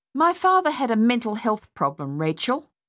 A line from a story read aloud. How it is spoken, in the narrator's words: Madeline snapped